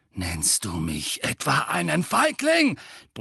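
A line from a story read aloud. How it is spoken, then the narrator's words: Bellowed. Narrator (German): brüllte Sirius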